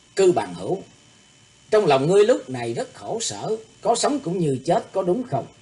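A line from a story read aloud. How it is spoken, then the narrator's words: Smiling. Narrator (Vietnamese): Thủy Tướng Hạo nhìn Cư Thu Quy mỉm cười nói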